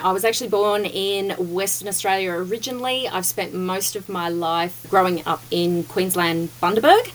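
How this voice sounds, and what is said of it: Australian accent. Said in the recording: “if you can't tell from the accent. But yes, I am Australian.”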